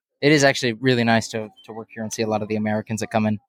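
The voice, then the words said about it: Texas drawl. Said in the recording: “you still got the draw ... bringing the Texas accent in ... People love listening to it ... It's a good accent.”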